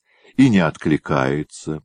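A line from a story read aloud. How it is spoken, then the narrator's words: Sighing. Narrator (Russian): вздохнул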